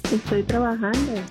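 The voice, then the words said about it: Hushed, quiet voice. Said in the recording (Spanish): “suenas así media calmada, como si estás hablando debajo de un escritorio”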